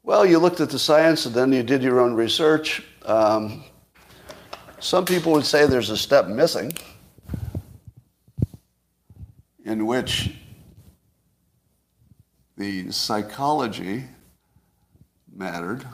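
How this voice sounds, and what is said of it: Arrogant, condescending put-on voice. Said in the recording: “what I would look like if I were acting arrogant ... doing an impression of ... if he were arrogant”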